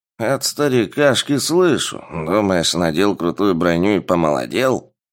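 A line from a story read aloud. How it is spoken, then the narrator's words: Grumbling elderly man. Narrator (Russian): проворчал пожилой ополченец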